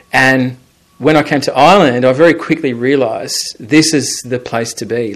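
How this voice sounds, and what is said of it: Australian accent. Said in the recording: “I come from Australia. You might pick that up from my accent.”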